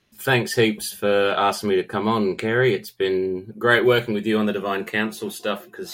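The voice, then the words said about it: Australian accent. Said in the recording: “As you can probably hear from my accent, I'm not from your side of the world. I'm down here in Australia.”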